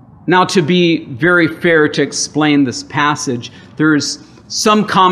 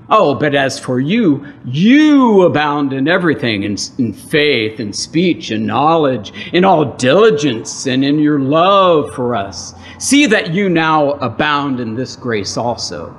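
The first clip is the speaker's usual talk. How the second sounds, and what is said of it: Sarcastic reading. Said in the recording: “Kind of being sarcastic.”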